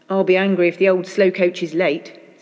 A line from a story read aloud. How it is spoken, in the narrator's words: said